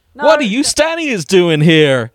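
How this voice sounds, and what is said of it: Bad American cartoon character voice. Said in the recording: “Sonic the Hedgehog ... American accent ... that's so awful ... getting some fucking mileage out this voice”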